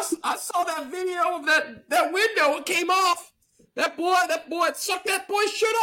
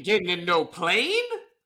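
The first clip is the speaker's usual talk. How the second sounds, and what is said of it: Sassy southern woman voice. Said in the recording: “I don't know, like, what accent that was. It was kind of like a sassy southern woman, perhaps.”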